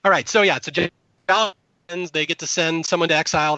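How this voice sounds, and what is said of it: Hoarse, strained voice. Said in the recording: “I completely blew my voice out doing that dumb Carolina impression”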